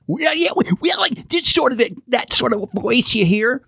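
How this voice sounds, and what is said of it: Walter Brennan-style cartoon voice. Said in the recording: “cartoon voice... That's sort of Walter Brennan.”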